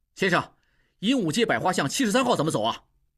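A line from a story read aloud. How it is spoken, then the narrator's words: Loud question. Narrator (Chinese): 应济……大声问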